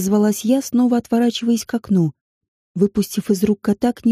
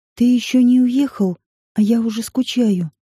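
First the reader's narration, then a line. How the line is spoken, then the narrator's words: Breathy exhale. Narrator (Russian): выдохнул я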